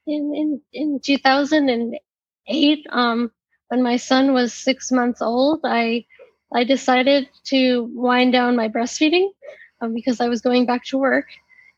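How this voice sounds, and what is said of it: Strained, fading voice. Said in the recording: “my voice is going a little bit”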